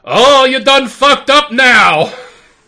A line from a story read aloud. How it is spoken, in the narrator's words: You hear somebody yell